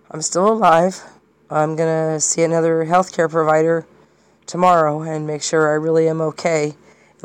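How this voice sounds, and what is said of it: Sick, worsened voice. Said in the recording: “My voice is worse”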